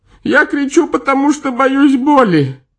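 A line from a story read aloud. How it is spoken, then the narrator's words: Sobbing. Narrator (Russian): рыдая сказал привязанный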